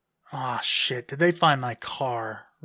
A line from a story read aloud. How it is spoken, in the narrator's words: Renee groaned